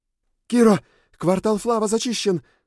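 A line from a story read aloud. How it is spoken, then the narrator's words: Owl shouting, inner voice. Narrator (Russian): закричала сова у меня в голове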